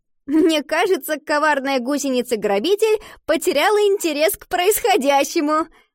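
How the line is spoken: Laughing. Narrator (Russian): рассмеялась Ива

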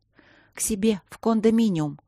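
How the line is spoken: Trembling voice. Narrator (Russian): дрожащим голосом ответила Софи

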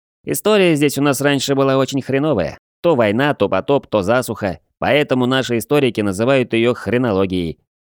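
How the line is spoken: Cheerful young man reporting. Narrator (Russian): бодро рапортовал паренек

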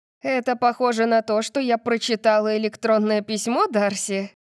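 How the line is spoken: Laughing. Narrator (Russian): Я начала смеяться

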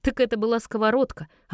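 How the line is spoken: Laughing. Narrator (Russian): рассмеялась

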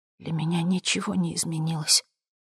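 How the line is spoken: Whisper. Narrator (Russian): прошептала она

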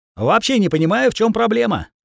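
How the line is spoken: Cheerful declaration while chewing. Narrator (Russian): заявил, бодро обгрызая баранью ногу

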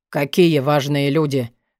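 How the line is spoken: Menacing interjection. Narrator (Russian): грозно встрял Вёлвинд

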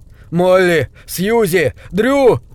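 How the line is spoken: Shout. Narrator (Russian): Дрю крикнул

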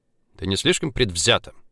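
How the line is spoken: Sharp retort. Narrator (Russian): резко бросил Влад

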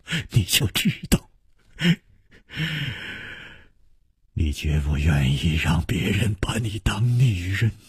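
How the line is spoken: Laughing. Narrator (Chinese): 楚留香笑着说

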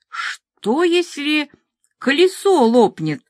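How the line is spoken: Plain. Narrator (Russian): спросила Котой

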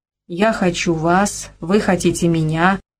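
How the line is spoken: Forced calm, suppressed trembling. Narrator (Russian): проговорил он нарочито спокойным и бесстрастным тоном, стараясь унять бившую его дрожь

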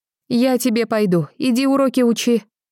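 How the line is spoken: Mother shouting from window. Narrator (Russian): кричала высунувшись в форточку мать

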